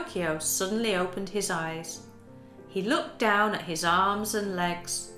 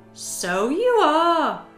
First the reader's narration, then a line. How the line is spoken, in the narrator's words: exclaimed Geppetto happily